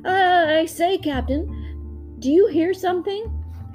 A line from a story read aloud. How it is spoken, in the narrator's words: Schmee called out